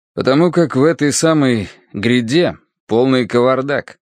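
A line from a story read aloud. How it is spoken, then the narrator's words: Indifferent, secretly pleased. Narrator (Russian): равнодушным тоном, но с тайным удовольствием сообщил Корнеич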